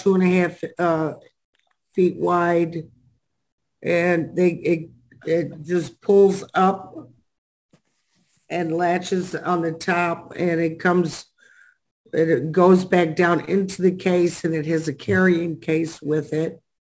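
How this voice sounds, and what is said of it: Weak, strained voice. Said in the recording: “my allergies are killing me, so my voice is gone, everything's gone.”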